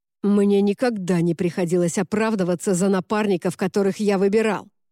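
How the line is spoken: Growled. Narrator (Russian): прорычал

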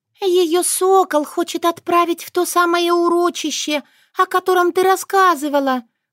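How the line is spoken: Sighing. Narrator (Russian): вздохнула Шушана

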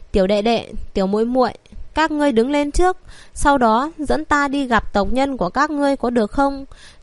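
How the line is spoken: Soft hesitant smiling. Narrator (Vietnamese): Lòng nàng nhất thời mềm nhũn, hơi do dự, sau đó mỉm cười nói

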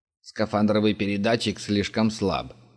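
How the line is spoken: Grumbled. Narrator (Russian): проворчал Глинич

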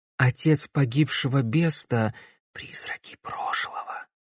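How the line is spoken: Quiet whisper. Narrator (Russian): тихо прошептал Матвей

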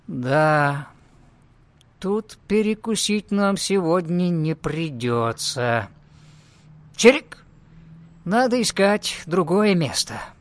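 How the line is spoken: Sad sighing. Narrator (Russian): Гоша вздохнул и грустно сказал

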